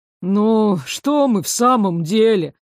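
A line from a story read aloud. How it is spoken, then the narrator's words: Embarrassed grumble. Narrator (Russian): смущенно проворчал огонь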